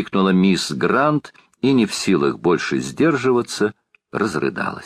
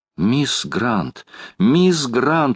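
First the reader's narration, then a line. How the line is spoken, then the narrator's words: Exclaiming. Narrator (Russian): воскликнула леди Элен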